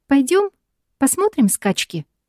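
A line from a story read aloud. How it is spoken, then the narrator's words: Cheerful suggestion. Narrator (Russian): предлагает весело Мия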